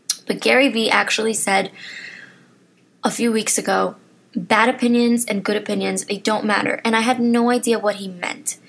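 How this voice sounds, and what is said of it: Strained, failing voice. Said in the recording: “Wow, I'm really losing my voice. ... I'm clearly losing my voice.”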